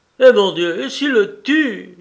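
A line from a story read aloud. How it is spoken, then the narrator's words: Tearful cry. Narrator (French): s'écria madame Dumay qui fondit en larmes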